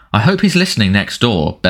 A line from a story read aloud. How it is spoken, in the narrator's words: bellowed Uncle Vernon